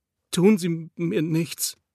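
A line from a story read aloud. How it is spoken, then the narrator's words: Stammering, pleading. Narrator (German): stotterte mit einer flehenden Stimme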